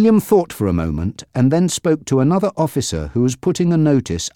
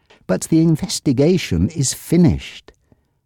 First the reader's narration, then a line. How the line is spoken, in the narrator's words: Susan said in her sweetest voice